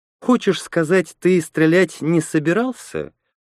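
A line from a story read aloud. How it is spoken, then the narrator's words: Insinuating soft question. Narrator (Russian): вкрадчиво спросила Лена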